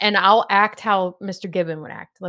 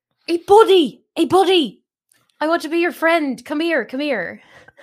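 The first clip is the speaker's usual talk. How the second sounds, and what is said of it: Put-on Irish accent. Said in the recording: “Let me do my Irish accent... if I butcher this accent”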